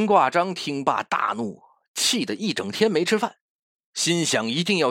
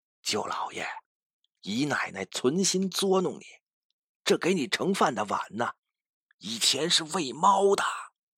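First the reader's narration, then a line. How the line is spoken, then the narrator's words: Whispered. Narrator (Chinese): 悄声对他说道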